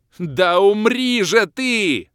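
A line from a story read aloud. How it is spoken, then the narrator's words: Yelled. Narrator (Russian): заорал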